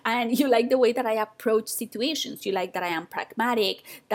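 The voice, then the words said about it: Speaks with a noticeable accent. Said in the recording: “you like the way I speak ... my accent ... annoyed by my accent”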